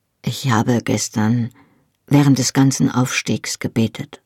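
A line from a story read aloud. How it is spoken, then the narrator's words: Said softly. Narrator (German): sagte er leise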